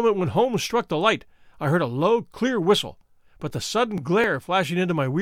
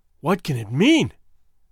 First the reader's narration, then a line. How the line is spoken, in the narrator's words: I gasped